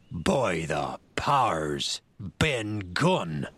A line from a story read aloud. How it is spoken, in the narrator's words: roared Silver